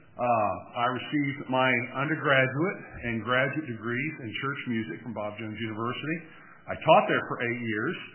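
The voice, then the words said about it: Slight Midwestern American accent. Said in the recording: “I don't have as much of a southern accent as most of the other people I grew up with ... I have a little more of a Midwest accent”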